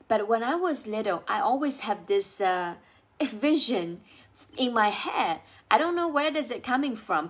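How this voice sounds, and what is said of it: Chinese accent in English. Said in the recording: “I speak with an accent because I wasn't born in the US. I was born and raised in China.”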